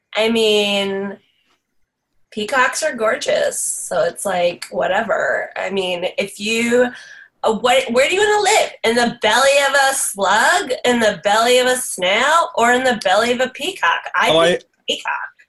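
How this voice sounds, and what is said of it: New Jersey accent character voice. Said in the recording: “That sounded like a New Jersey accent.”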